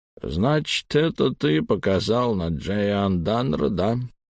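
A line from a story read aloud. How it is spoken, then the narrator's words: Bored tone. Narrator (Russian): скучающим тоном произнес он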